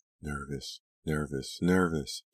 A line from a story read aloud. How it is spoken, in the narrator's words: Delia mumbled to herself